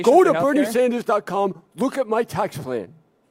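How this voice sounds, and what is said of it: Bernie Sanders impression, Larry David style. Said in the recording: “Your impersonation of the impersonation. ... I appreciate the Larry David impersonation, which I think is better than Bernie. I think he does Bernie better than Bernie.”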